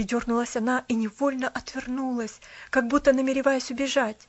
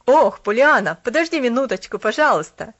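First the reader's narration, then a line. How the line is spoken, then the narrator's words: Shouted. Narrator (Russian): крикнул посетитель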